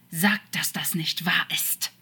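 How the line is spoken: Angry snake hiss. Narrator (German): zischte Crawley als Schlange wütend

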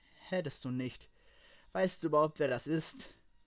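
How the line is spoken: Calm question. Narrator (German): fragte er ruhig nach

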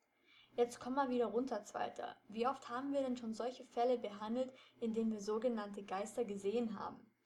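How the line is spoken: Plain. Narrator (German): fragte Justus

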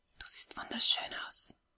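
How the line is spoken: Whispered in ear. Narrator (German): flüsterte Ray ihr ins Ohr

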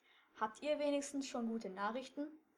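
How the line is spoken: Plain question. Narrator (German): fragte Mr

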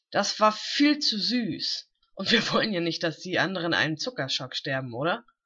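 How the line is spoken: Giggling. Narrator (German): kicherte Rin

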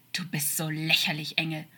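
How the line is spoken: Hissing like a snake. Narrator (German): stieß er zischend wie eine Schlange hervor

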